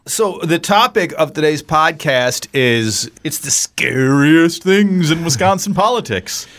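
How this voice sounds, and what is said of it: Spooky scary voice. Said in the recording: “my scary voice? ... It's a little frightening.”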